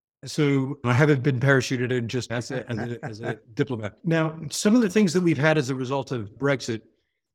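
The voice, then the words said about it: American New York accent. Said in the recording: “You hear from my accent, I'm American from New York, the New York area.”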